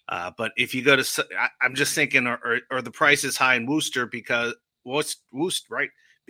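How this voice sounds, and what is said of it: New Jersey accent. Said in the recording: “I always mess that up with my New Jersey accent.”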